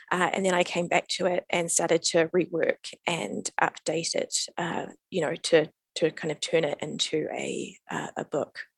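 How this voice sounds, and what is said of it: New Zealand accent. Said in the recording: “from your accent, obviously, you are from New Zealand... Kiwi born and bred.”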